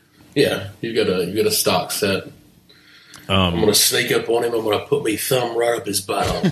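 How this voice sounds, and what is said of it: Good put-on Australian accent. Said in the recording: “Wow, you do a good Australian. Very good. ... That's more of South Park.”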